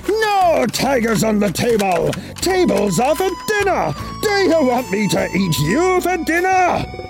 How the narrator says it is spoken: Chen roared

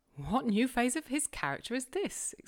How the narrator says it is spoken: exclaimed Mrs

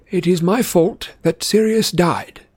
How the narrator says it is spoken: said Dumbledore calmly

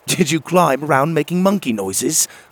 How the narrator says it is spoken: laughed

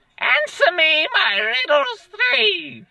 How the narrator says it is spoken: screeched the troll

